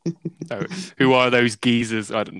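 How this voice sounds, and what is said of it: Put-on British accent. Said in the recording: “I'm speaking with a British accent”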